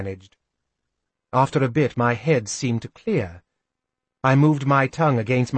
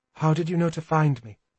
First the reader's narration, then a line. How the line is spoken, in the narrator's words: He sighed